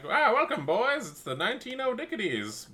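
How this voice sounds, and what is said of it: Old-timey transatlantic radio announcer accent. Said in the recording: “transatlantic accent ... like the oldie-timey radio ... an accent that was made specifically for, like, TV and radio at the time ... the announcer voice”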